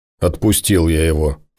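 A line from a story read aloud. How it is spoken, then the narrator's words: Grumble. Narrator (Russian): проворчал Тимур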